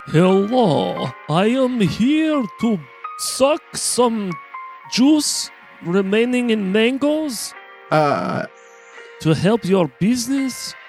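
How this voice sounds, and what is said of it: Transylvanian vampire accent. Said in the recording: “He had a Transylvanian accent.”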